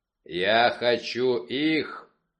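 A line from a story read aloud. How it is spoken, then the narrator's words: Growling. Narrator (Russian): прорычал Вульф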